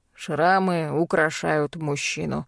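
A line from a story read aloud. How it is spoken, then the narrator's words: Grumble. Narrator (Russian): проворчал тот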